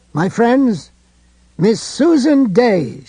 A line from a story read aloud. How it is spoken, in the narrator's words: she cried